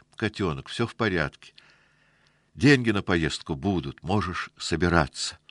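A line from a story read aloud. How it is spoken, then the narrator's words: Joyful. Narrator (Russian): радостно сообщила она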